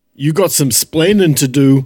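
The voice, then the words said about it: Mock accent. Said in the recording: “let's make fun of an accent”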